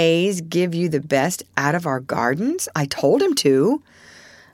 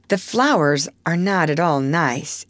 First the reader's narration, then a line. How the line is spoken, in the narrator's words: Amy says